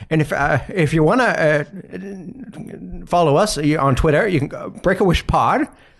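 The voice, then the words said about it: Old man voice with drawl, vocal fry. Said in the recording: “I'm just doing an old man voice ... He's got a drawl. He does have a drawl ... He has like the male vocal fry”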